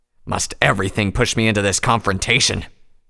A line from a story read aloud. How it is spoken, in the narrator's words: Tirado growled